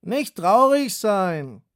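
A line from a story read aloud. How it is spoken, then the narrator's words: Calling after them. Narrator (German): rief ihnen nach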